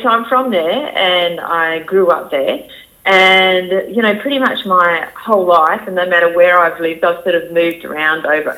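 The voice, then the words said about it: Mild Australian country accent. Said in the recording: “my country accent ... it's actually not as bad as it used to be. It used to be really like a real country drawl.”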